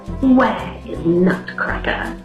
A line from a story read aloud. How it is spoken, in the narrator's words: He hissed